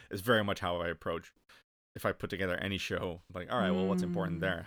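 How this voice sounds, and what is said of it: American-sounding accent. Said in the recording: “my accent ... You sound very American”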